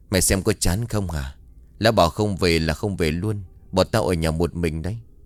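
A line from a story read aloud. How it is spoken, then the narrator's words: Sighing. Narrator (Vietnamese): Tuyết thở dài nói với Hằng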